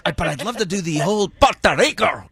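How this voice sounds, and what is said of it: Poor attempt at rolled R's. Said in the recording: “roll my R's ... That was terrible. That was dark. ... That was bad.”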